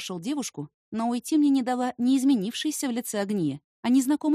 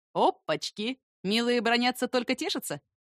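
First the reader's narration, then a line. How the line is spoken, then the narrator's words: Stranger's chuckle. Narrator (Russian): Незнакомец хохотнул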